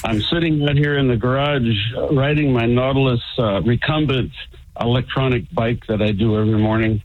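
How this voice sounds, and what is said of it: Great radio voice. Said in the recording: “You sound great. You sound awesome. ... You got a great radio voice.”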